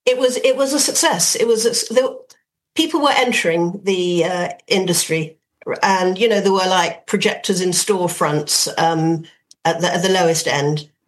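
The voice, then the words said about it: Dublin Irish accent. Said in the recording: “Dublin in those days, as you can hear from my accent”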